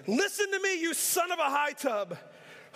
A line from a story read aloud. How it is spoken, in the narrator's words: Saul shouted at him